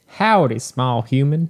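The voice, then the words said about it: Put-on cowboy accent. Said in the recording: “If you're just as a cowboy, you have to be like,”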